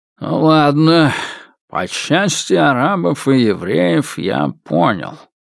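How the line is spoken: Good-natured grumble. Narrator (Russian): проворчал он довольно добродушно

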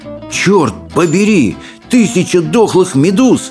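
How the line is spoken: Exclaiming. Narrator (Russian): воскликнул Рыбий Ног

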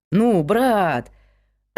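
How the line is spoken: Joyful exclamation. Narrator (Russian): радостно воскликнул Микаэль

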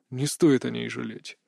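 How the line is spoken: Calm. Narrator (Russian): спокойно отозвался Кри

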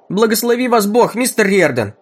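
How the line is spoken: Old woman shouting. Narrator (Russian): выкрикнула старая женщина

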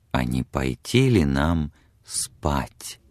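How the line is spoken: Whispered close to ear. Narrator (Russian): его губы прошептали у самого ее уха

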